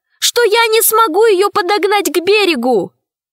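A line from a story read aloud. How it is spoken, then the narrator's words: Shout. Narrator (Russian): крикнула Алиса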